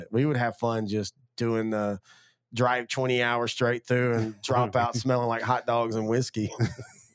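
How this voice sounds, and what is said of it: Raspy, smoker-like voice. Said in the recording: “you sound like a smoker”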